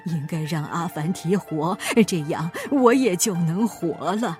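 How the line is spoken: Weak, exhausted muttering. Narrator (Chinese): 国王被折磨得半死不活，他仍旧在喃喃自语

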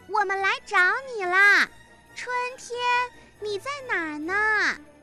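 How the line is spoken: Loud shouting. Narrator (Chinese): 马库大声地喊着

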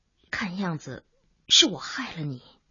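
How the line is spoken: Sighing. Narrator (Chinese): 钱文新叹口气

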